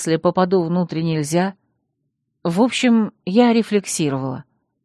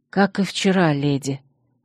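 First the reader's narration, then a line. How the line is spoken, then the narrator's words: Sighing. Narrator (Russian): вздохнула она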